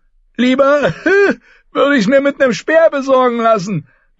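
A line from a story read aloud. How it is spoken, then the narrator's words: Repeating with a laugh. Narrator (German): wiederholte und lachte ebenfalls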